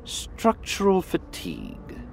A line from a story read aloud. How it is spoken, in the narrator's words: she murmured to Mosul